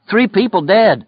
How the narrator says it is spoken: Lloyd cried

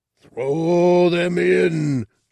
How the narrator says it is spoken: Jabba shouted

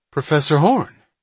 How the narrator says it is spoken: Hatch cried

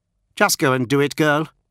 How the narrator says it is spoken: Mu snapped

